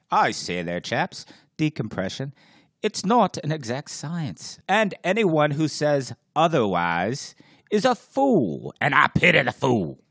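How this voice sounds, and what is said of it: Put-on British accent. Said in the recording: “I've been doing my impersonation of Albert Buhlman as a British guy ... mix a little Mr. T with Albert Buhlman as a British guy”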